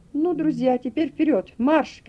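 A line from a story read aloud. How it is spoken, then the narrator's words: Shouting to dogs. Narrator (Russian): крикнул он собакам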